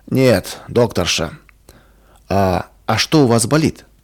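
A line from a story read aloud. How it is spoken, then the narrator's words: Angry, curt retort. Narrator (Russian): Больной сердито … резко бросил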